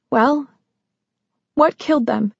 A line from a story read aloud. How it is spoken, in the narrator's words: the quaver in her voice